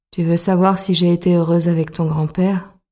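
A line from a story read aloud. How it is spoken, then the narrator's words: Murmur. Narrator (French): Bérangère murmure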